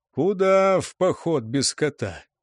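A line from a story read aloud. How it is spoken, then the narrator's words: Sighing. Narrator (Russian): вздохнул Сегар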